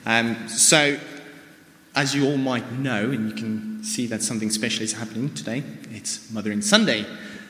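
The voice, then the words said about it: South African accent. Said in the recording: “you can hear by my accent, I'm from somewhere else as well... in South Africa”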